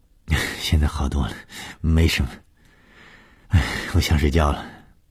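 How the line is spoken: Murmuring. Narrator (Chinese): 她喃喃地说

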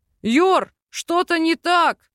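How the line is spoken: Shout. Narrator (Russian): выкрикнул Докин

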